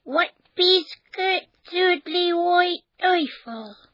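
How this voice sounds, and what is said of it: Quirky mole character accent. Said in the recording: “Moles speak with a curious accent”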